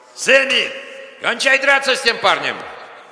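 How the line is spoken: Man yelling. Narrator (Russian): кто-нибудь из мужчин орал

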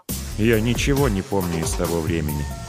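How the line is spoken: Dull lifeless voice. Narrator (Russian): погасшим голосом ответил Ред

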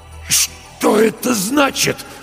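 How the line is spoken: Strained, forced out. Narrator (Russian): с трудом выдавил Стольберг

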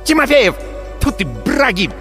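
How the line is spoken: Barked. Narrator (Russian): рявкнула Валькирия

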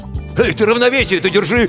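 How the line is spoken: Panicked shout. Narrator (Russian): в панике выкрикнул Крылов

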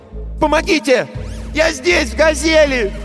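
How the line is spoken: Shouting. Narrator (Russian): Он закричал

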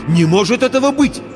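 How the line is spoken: Exclaiming. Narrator (Russian): воскликнул

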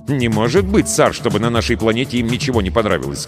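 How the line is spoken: Plain. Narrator (Russian): сказал Крисмос

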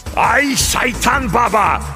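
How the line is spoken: Roaring. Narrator (Russian): взревел Дев

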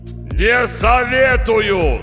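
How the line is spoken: Yelled. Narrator (Russian): заорал голос

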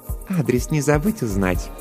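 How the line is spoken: Purring voice. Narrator (Russian): промурлыкала Жанна

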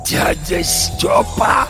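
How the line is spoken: Hoarse recognition. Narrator (Russian): прохрипел Горемыкин, узнавая

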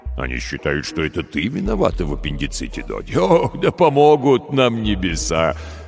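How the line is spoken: Head-back laugh, then stopping. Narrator (Russian): Рассмеялся он, запрокинув голову, но остановился, заметив, что пугает маленькую пленницу

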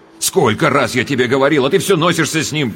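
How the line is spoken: Sharp shout. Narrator (Russian): прикрикнул он

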